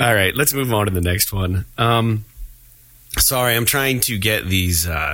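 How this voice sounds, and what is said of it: Usual voice. Nothing is said of it.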